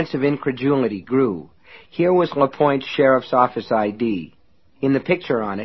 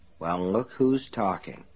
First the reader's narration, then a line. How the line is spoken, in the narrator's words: Lester Pratt muttered